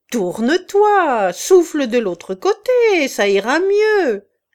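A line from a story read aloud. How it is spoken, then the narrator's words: Shouting. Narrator (French): cria Chouteau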